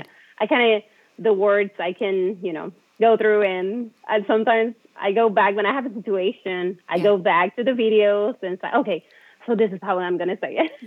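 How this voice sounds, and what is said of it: Light non-native English accent. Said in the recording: “I would not qualify you as a heavy accent. Not even close. ... I can tell that it's your second language, but you're very fluid”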